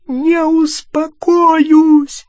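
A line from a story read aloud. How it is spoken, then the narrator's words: Shrieked. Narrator (Russian): завизжала она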